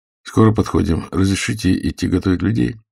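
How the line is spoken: Dry question. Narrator (Russian): сухо спросил Иноземцев

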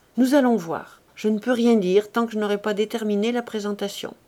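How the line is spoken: Curt. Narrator (French): Puis elle conclut sèchement

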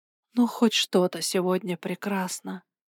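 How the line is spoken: Mumbling. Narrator (Russian): пробормотала я

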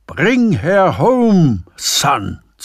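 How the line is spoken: Bellow. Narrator (German): zu brüllen

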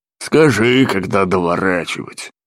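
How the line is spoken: Grumbling. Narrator (Russian): проворчал Бернард, штурман, смахивающий на толстого тюленя

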